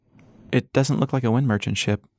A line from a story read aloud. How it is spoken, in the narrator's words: Emma said